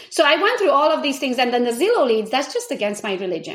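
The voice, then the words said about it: Speaks with a foreign accent. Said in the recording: “I have an accent”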